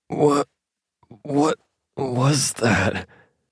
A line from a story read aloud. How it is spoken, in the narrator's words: He stuttered as he regained his breath